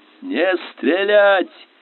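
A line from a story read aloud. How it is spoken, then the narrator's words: Hoarse yelling. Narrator (Russian): хрипло орал он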